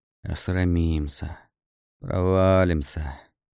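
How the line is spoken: Nervous, shivering mutter. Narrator (Russian): пожимаясь от холода и волнения, бормотал

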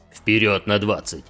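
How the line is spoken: Sergeant barking. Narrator (Russian): рявкнул сержант

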